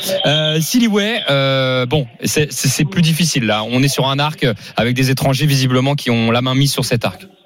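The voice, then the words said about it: Very thick accent. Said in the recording (French): “j'ai un accent à couper au couteau”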